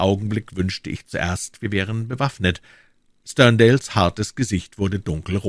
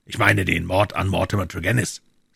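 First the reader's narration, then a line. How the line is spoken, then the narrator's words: Cold. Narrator (German): sagte Holmes kalt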